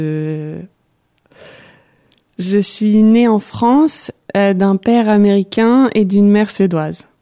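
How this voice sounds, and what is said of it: Foreign accent speaking French. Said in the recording (French): “d'où vient votre accent?”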